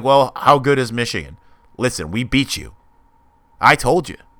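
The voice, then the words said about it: Imitates another person's voice. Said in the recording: “my Mike Valenti impression”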